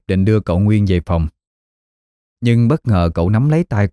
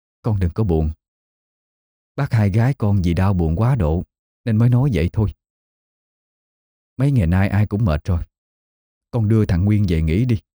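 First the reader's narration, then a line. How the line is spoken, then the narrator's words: Sighing, gentle speech. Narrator (Vietnamese): Bà Hà thở dài nói với Diệp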